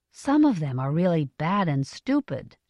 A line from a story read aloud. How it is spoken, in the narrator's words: she said in a low voice